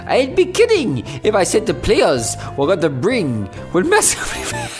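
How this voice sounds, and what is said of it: Attempted Scottish accent. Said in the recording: “I can't do a Scottish accent.”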